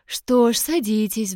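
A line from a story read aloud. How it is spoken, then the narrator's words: Sighing woman. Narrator (Russian): вздохнула женщина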